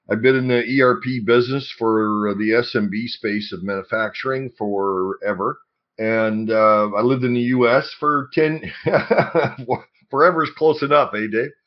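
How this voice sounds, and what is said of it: Congested voice from a cold. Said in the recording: “I've got a bit of a cold today, so I hope I don't sound too terrible.”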